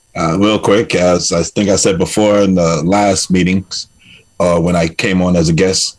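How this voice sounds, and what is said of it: New York accent. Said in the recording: “from Bermuda with a New York accent”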